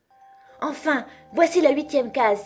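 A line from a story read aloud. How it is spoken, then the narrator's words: Exclaimed. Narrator (French): s'écria-t-elle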